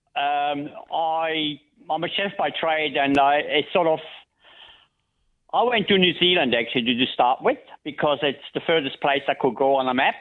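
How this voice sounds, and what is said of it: Swiss accent in English. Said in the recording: “I can hear you've got an accent there ... Swiss ... Originally, Switzerland”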